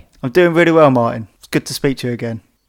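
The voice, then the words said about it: Strong accent, dropped T's. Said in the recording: “misunderstandings around my accent ... I can't really understand what he's saying ... I'm going to pronounce my T's”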